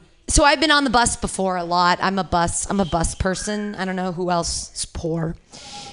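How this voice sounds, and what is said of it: Usual voice. Nothing is said of it.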